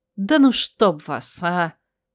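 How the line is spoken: Annoyed groan, woman. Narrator (Russian): Простонала раздосадованно, обнаружив, что и без того откровенное ночное платье намокло

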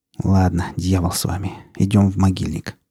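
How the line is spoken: Muttering. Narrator (Russian): пробормотал Рамир

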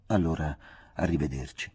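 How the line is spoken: Gentle. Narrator (Italian): feci dolcemente

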